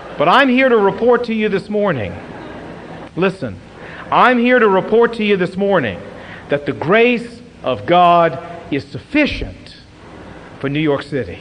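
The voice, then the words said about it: Southern American accent. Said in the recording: “you have a southern accent”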